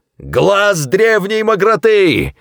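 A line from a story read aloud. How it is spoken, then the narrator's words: Yelled. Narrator (Russian): завопил Зафот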